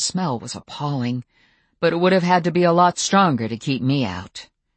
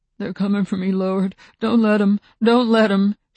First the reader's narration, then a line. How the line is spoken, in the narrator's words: whimpered, muttering